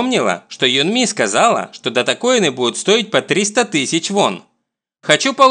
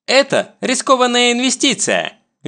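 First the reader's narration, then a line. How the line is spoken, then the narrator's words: Cheerful reply. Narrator (Russian): весело отвечает ей Барам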